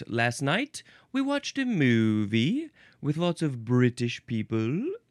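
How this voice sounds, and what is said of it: Put-on British accent. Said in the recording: “I'm doing a very accurate British accent.”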